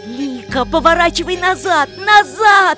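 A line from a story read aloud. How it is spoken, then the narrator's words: Shouted. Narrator (Russian): закричал Павел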